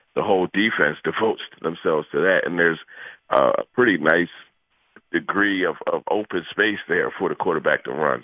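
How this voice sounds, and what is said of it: Hoarse, congested voice from a cold. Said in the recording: “apologize for my voice, man. I'm fighting this cold this morning”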